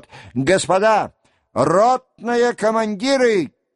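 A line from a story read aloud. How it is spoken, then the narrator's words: Commanding shout. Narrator (Russian): крикнул он голосом, привычным к команде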